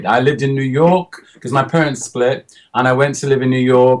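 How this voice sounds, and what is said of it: English accent. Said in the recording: “are you English or did you just move there and acquire an English accent?”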